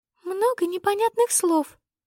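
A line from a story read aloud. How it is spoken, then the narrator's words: Squeaky little voice. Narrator (Russian): сообщила она писклявым голоском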